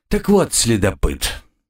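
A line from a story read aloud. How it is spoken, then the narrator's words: Calm. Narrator (Russian): по-прежнему спокойно произнес игрок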